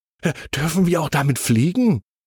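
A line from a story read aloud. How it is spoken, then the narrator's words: Very excited question. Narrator (German): fragt noch ganz aufgeregt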